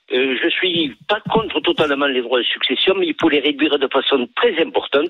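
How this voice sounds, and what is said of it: Lilting, sing-song regional French accent. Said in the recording (French): “ce petit accent qui chante”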